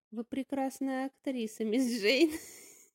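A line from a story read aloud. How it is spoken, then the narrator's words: Sarcastic praise. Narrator (Russian): Язвительно похвалил ее Кета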